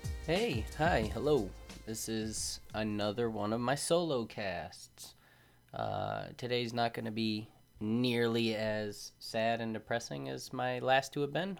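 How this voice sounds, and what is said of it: Sleepy voice. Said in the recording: “I realize I have a bit of a sleepy voice”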